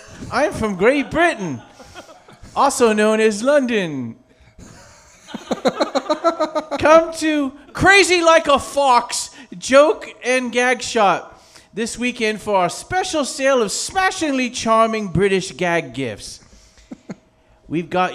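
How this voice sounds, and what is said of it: Put-on English accent. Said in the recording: “my English accent.”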